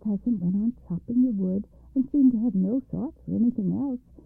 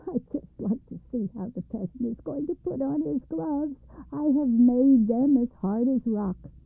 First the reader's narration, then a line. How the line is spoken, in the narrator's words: laughed, saying to himself